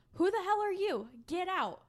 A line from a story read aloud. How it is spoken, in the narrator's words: Virginia yelled